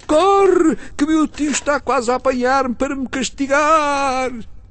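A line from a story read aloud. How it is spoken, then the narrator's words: Boy shouting from afar. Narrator (Portuguese): indo já muito longe, o rapaz tornou a gritar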